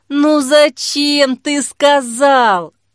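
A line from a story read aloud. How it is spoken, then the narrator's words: Moaning. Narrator (Russian): простонала Жанна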